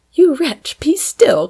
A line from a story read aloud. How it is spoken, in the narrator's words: cried Fanny